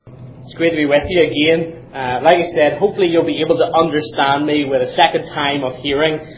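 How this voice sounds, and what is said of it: Strong accent with slight American twang. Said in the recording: “Hopefully my accent isn't too strong now. I was told when I was back home I have a bit of an American twang.”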